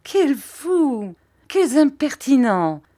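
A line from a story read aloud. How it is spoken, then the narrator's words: Mother's laughing shout. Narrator (French): cria ma mère en riant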